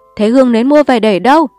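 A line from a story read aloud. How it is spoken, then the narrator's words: Shouting. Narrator (Vietnamese): bà lại quát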